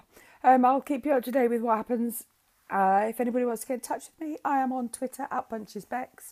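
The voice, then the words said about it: Hoarse voice. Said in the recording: “Apologies for my voice sounding a little bit hoarse. ... doing a little bit of singing”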